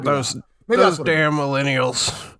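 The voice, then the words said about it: Old man voice. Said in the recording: “I did my old man voice.”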